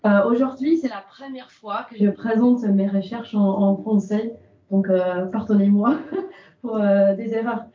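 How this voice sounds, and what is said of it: English accent speaking French. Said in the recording (French): “vous avez remarqué mon accent. ... je suis postdoc de l'Angleterre”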